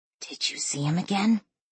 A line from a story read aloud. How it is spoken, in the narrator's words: She asked in a whisper